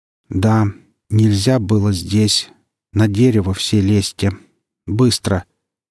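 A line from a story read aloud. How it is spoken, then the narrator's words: Calm, level voice. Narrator (Russian): сказала это спокойно, не повышая голоса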